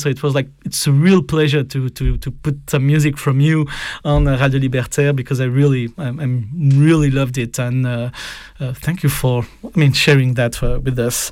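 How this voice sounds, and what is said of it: French accent speaking English. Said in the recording (French): “I will take my French accent.”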